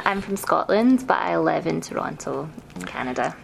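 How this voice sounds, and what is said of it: Glasgow Scottish accent, slightly Canadian. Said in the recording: “your accent is distinctive ... So what we're hearing is a form of a Glasgow ... This is a Glasgow accent that I afflicted with ... But it's starting to go more Canadian.”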